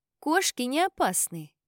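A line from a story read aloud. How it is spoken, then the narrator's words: Calm remark. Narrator (Russian): спокойно заметила его сестра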